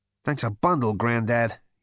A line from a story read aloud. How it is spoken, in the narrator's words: he added to himself under his breath